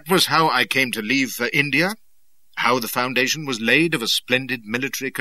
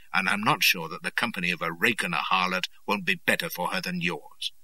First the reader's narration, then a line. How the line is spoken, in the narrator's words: says he very softly